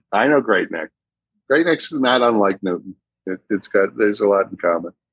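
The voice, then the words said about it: Boston accent. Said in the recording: “your accent is like if Fenway Park became a human being... if the duck tours could talk... when you start talking about your childhood, it comes out a little more”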